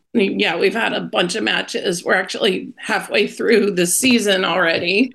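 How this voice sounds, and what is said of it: Hoarse, strained voice. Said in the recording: “I can't talk very good. I'm losing my voice.”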